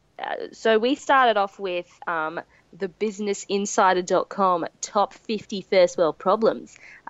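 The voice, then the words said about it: Odd put-on silly voice. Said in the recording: “why I'm doing this voice... why am I doing this voice?... are you having a stroke every couple of, like, 30 seconds?”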